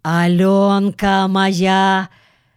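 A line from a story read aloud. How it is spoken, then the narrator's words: Roaring shout. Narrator (Russian): Викеша крикнул львиным голосом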